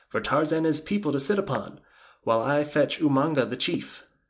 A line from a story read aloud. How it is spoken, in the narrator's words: he cried